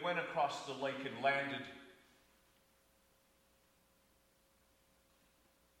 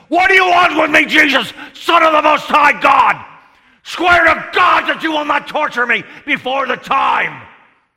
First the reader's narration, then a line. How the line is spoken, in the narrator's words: shouted at the top of his voice